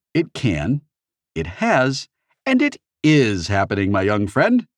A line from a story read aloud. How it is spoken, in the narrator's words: Anorak said cheerfully